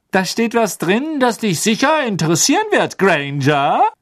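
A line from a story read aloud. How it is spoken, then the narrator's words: Shouted. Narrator (German): rief Pansy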